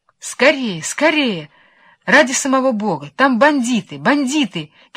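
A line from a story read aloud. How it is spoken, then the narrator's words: Shouting after them. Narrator (Russian): кричала им вслед Вишенка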